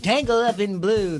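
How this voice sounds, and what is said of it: Imitates another person's voice. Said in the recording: “do an impression of Bob Dylan”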